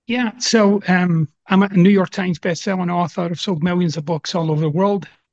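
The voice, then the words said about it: Mixed Scottish and Southern American accent. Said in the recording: “you'll notice I've got a couple of accents. So I got this half Sean Connery, half Dolly Parton thing going on.”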